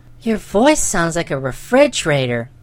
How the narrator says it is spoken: sighed the little girl

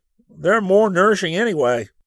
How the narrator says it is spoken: Rick groaned

